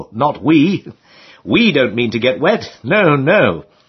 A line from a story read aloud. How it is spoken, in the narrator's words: replied, with a knowing chuckle